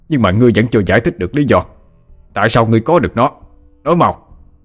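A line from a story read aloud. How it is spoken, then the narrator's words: Shout. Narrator (Vietnamese): Tạ Sư Linh quát lên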